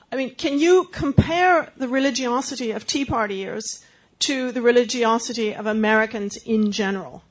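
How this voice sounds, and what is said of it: Lovely accent. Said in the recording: “a lovely accent”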